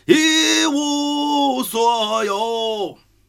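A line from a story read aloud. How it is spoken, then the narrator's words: Group roar. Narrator (Chinese): 大家就齐吼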